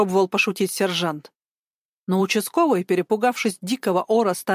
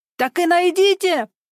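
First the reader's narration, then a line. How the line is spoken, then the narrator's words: Screaming at full volume. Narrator (Russian): завопила она, что есть мочи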